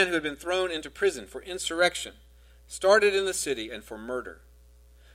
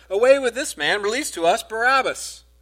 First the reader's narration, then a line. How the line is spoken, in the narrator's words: they all cried together